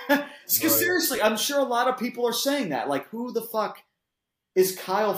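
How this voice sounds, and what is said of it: Usual voice. Nothing is said of it.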